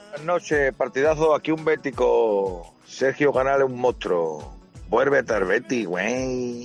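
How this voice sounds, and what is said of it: Mexican Spanish accent. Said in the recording (Spanish): “te lo dicen así, con acento mexicano”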